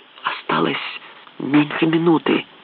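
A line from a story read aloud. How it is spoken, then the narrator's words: Whispered. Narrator (Russian): прошептал Фоллет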